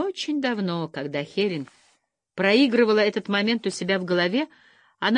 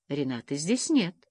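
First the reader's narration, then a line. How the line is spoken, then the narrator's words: Soft. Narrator (Russian): мягко сказал Фрэнк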